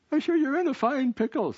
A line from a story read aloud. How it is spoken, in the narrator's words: said with a giggle